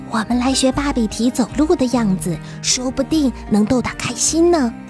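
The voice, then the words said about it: Quiet, hushed voice. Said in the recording (Chinese): “小声的跟小松鼠说”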